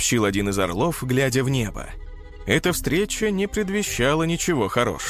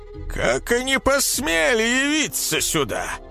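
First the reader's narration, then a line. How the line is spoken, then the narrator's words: Menacing elder's question. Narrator (Russian): грозно спросил старейшина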